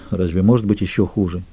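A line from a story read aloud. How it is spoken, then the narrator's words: Quiet. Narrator (Russian): тихо проговорил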